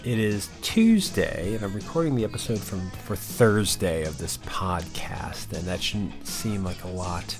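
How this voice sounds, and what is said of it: Tired, exhausted-sounding voice. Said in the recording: “if I sound exhausted, it's because to me, it's early. I've been up for a while.”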